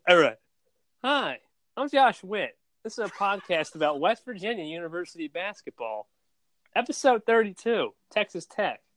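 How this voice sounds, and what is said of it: Imitates another person's voice. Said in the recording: “that Josh Weir impression ... That's spot on.”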